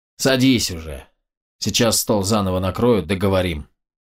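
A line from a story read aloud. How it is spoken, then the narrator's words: Sighing. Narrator (Russian): вздохнув, проговорил Гербаум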